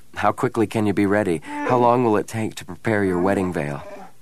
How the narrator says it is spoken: She chuckled, a rich, throaty sound in the darkness

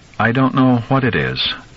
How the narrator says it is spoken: she replied evenly

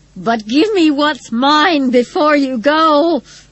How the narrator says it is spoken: Rose Matter screamed

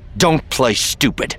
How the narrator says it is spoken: Luke snapped

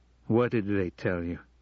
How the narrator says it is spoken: He asked quickly

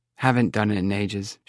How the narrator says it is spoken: she said in a curt tone that suggested she wanted the subject closed

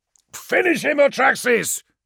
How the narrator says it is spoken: shouted

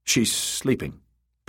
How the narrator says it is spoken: Pate said curtly

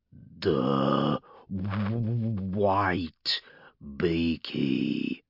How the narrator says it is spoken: Urgork rumbled

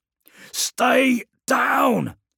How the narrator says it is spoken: screamed Mericus at the men

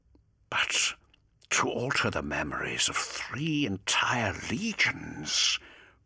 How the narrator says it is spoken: breathed Fulgrim

